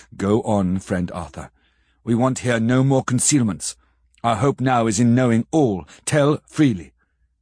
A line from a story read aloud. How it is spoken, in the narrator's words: Van Helsing said gravely